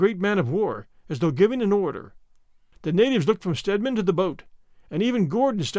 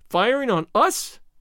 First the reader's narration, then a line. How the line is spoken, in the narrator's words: he cried